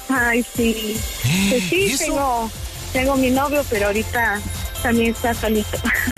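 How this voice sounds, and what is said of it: Brazilian accent speaking Spanish. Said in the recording (Spanish): “escucho tu acento como de otro lugar ... yo soy de Brasil, brasileña ... Soy de Bahía”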